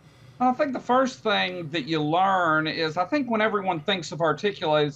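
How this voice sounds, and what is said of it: Southern US accent. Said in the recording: “For anyone that's not used to North Carolina, you might have to subtitle me ... the southern accent works just fine.”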